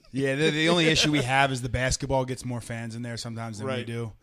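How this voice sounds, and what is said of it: Philadelphia accent. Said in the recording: “I obviously notice your Philly accent.”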